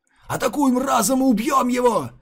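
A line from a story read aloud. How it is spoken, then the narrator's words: Yelling. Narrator (Russian): завопил Сокун Дзюэ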